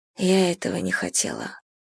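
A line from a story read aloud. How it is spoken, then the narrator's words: Mumbling. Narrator (Russian): бормочет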